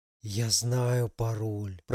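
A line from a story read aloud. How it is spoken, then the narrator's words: Blissful whisper. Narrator (Russian): прошептал блаженный бородач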